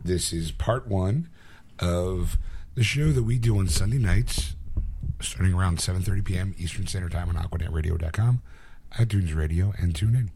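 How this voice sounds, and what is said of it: Strained, fading hoarse voice. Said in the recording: “forgive my voice. I kind of started losing at the end of this show.”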